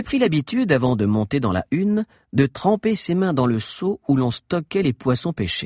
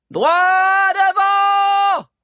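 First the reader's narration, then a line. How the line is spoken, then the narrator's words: Shouted. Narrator (French): cria Agnel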